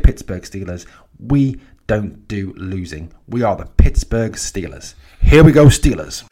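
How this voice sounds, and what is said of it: Posh English accent. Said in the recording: “a guy with a posh English accent”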